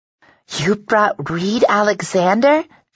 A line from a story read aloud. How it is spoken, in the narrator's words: squeaks